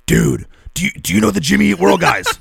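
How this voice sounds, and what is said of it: Imitates another person's voice. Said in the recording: “my Chuck impression.”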